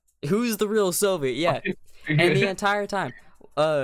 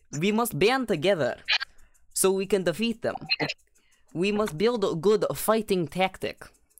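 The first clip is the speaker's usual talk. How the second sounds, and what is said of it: Exaggerated put-on Russian accent. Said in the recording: “talk in a Russian accent this entire time, it would get better as it goes on. Right now it's pretty bad ... we were going back and forth with our Russian accents”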